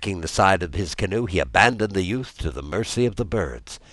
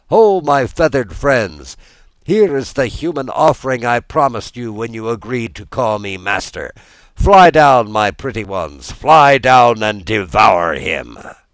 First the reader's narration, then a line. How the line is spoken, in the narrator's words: the magician cried out to the gulls